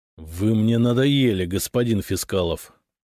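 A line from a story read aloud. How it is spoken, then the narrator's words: Through gritted teeth. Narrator (Russian): сквозь зубы сказал Никита Михайлович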